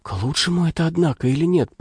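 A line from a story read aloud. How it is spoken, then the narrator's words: Whisper. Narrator (Russian): прошептал кто-то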